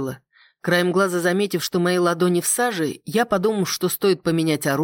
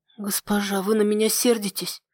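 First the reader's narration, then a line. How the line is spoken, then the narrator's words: Maid muttering. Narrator (Russian): пробормотала горничная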